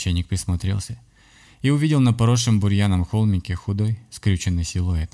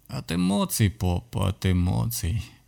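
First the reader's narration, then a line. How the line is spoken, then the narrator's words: Hoarse voice from nearby grave. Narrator (Russian): послышался хриплый голос с расположенной рядом могилы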